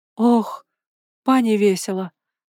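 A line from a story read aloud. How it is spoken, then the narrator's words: Relieved sigh. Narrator (Russian): вздохнула хозяйка с облегчением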